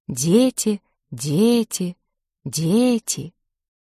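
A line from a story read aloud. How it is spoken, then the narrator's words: Frightening whisper. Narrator (Russian): этот шепот нагонял страх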